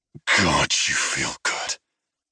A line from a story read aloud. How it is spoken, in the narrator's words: he murmured